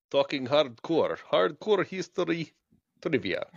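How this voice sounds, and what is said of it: Put-on Russian accent. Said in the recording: “Say it with a Russian accent.”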